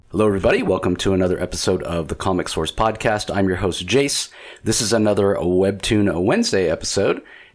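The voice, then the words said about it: Slightly scratchy voice. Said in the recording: “my voice is a little scratchy. I'm kind of battling a sore throat.”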